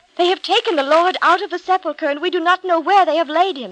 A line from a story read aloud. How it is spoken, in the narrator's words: she cried